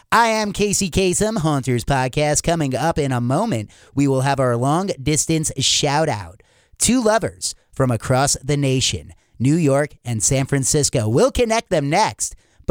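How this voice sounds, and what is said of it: Nasal radio-host impression. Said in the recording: “that's not even a good impersonation. He wouldn't even do that. You got it wrong. ... He doesn't sound like him. ... He sounds like a nasally dwarf.”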